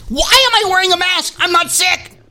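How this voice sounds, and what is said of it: Yelling. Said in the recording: “Why am I yelling at you”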